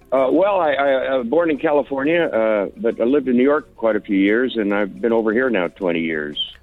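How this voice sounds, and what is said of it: American accent. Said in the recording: “we can hear an American accent there”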